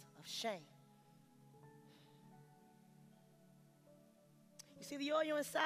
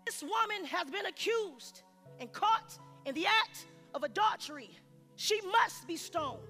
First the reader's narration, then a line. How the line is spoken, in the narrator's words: They yelled